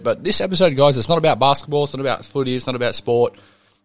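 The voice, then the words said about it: Croaky, hoarse voice. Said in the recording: “Pardon my voice for the whole episode. It is a bit croaky right now. I've lost my voice”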